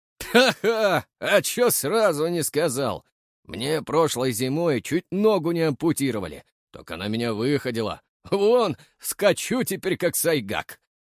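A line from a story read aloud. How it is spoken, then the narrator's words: Loud guffawing. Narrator (Russian): Захохотал кривоносый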